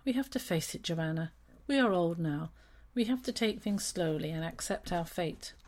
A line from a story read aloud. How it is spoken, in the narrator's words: She sighed and declared